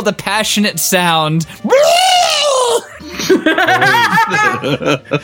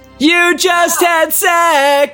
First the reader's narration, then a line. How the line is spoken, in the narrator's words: screamed Tails